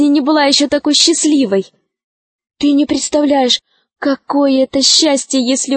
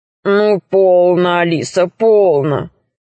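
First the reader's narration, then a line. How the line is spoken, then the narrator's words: Deep bass voice. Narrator (Russian): сказал дракон басом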